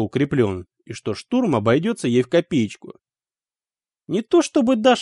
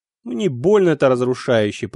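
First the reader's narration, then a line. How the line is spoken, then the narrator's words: Grumbling. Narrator (Russian): проворчал я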